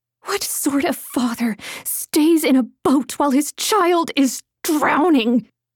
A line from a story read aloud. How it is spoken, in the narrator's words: The mother's voice snarled